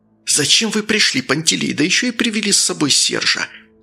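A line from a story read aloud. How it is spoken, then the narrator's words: Angry hiss. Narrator (Russian): Рассерженно зашипел король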